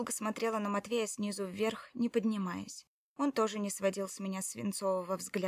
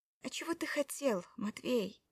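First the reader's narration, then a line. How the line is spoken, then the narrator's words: Quiet question. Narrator (Russian): спросила я тихо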